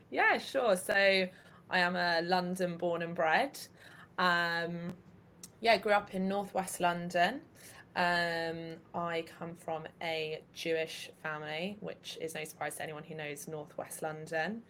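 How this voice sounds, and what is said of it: Southeast English accent. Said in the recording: “you're obviously English, but it was your accent is kind of southeast”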